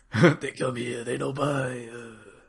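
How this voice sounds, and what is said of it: Imitates a game character's accent. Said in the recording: “speaks in a very specific accent ... Please do the entire podcast in that voice.”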